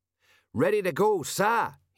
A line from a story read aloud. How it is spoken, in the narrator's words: he shouted